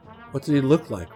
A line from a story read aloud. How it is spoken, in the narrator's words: Rick asked